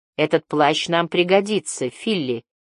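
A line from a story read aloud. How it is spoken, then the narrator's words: Plain, young girl. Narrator (Russian): сказала девочка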